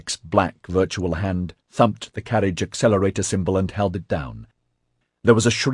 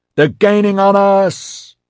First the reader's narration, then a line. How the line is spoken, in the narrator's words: Matthew yelled